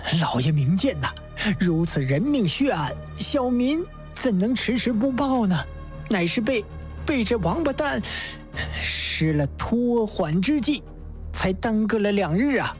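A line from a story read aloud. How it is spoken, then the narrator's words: Through gritted teeth. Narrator (Chinese): 刘飞波咬牙切齿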